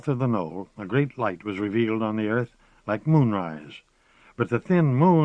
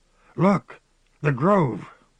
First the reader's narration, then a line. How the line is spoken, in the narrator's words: Gamble said, shaking off awe, but then he cried, awestruck